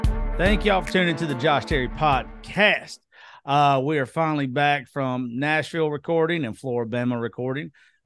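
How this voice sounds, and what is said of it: Hoarse, nearly lost voice. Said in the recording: “my voice is about gone ... I am exhausted”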